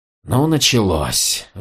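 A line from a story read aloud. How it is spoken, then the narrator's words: Sighing. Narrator (Russian): вздохнул Ганелон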